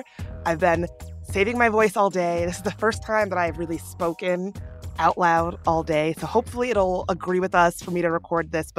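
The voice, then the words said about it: Raspy, husky sick voice. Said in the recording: “my voice sounds a little different, it's because I'm a bit under the weather ... sounds raspy or husky”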